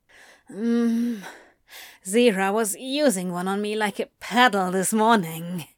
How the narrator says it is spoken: Antony moaned

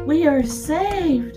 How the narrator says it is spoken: cried Mrs

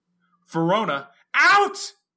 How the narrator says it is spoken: screamed, shriller

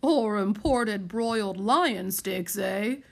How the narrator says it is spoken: quipped Colonel Chumpington, chuckling

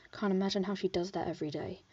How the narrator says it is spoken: Virgil said in a hushed tone

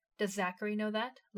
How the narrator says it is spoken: Levi asked

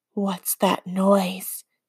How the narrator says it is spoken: Danny whispers

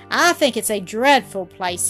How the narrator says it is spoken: exclaimed

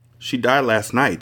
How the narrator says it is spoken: said the aide

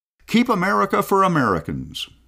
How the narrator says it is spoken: shouting

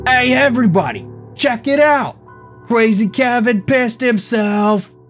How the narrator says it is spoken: from the hallway, Elijah yelled

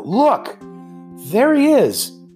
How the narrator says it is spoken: called out

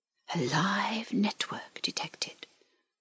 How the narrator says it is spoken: whispered the link

